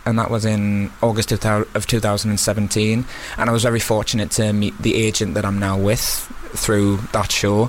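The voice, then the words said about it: Slight Newcastle accent. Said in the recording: “I'm originally from Newcastle, you can probably tell. ... There's a bit of a twang there.”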